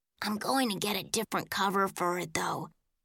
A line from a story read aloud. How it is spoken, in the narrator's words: Kevin whispered to me